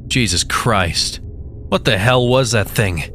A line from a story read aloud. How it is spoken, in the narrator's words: Atwell barked out